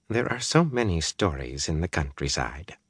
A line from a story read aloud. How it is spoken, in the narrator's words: Varen smile at Eliza and murmur